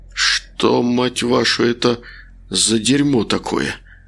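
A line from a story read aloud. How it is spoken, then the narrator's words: Hoarse whisper. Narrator (Russian): прошептал Макар осипшим голосом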